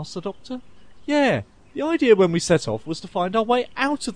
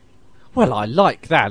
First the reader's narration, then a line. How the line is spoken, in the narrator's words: exclaimed Nick